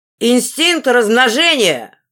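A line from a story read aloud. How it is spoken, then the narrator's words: Shout. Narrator (Russian): выкрикнул граф Эндага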